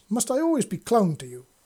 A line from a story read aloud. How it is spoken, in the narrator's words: He snapped